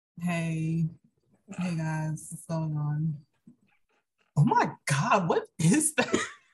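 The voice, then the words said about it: Imitates another person's voice. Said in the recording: “do your best impression of me”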